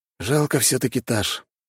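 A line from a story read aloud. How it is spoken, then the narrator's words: Gloomy. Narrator (Russian): мрачно говорит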